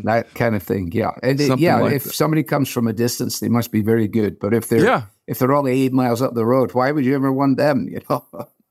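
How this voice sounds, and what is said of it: Scottish accent, softened. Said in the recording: “these folks from Scotland and Ireland and England and Australia come ... his beautiful voice ... when I go back to Scotland, my friends back there think that my accent has been destroyed after 40 years here”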